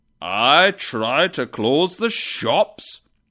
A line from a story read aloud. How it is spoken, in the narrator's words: exclaimed the spirit